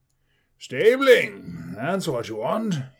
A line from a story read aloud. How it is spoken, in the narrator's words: boomed